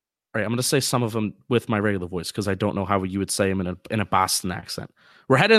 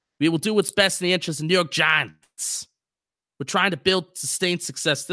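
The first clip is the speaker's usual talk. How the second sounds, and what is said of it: Bad fake Boston accent. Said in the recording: “fake Boston accent ... This is a terrible accent. ... That is the worst Boston accent I've ever heard.”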